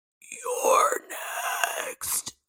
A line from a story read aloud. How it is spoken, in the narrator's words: a growling in my ear as it whispered